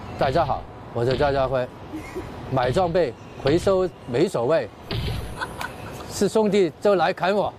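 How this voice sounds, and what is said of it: Quirky, catchy accented speech. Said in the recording (Chinese): “张家辉代言的《贪玩蓝月》游戏广告，凭借着他魔性的口音”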